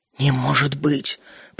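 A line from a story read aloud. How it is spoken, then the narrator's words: Very quiet mutter. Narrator (Russian): пробормотал человек очень тихо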